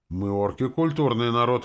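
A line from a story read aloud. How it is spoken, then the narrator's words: Exclamation. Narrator (Russian): воскликнула Арчанка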